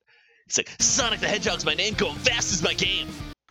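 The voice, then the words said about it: Cartoon hedgehog character voice. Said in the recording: “that's a really good Sonic impression. ... I did the worst voice I could think of. no, it's extremely good.”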